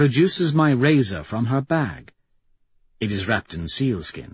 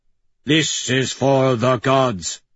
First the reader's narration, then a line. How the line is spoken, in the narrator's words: I growl